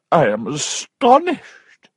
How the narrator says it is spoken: cried her aunt

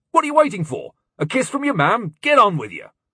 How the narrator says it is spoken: his father said sharply

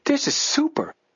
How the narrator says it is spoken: Joe exclaimed

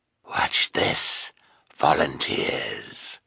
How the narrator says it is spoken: said the sinister man in his hoarse voice

